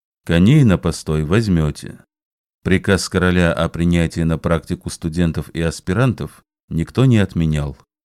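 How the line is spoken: Calm. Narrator (Russian): спокойно отвечал Ашер

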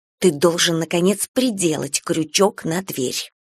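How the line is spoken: Hiss. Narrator (Russian): прошипела Эрика

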